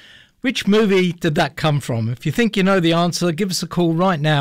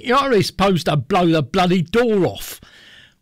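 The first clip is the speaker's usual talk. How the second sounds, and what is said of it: Put-on Cockney accent. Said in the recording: “Do you want me to say it in a Cockney accent?”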